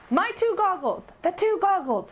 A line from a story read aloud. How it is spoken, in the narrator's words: shouted Shala and Riaz together